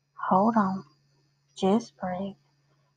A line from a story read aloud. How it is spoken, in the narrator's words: Lydia calmly said